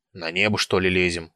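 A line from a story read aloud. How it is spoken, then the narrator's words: Grumbling. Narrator (Russian): проворчал Диомед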